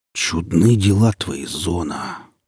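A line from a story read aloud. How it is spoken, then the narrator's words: Muttering vulture. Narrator (Russian): пробормотал гриф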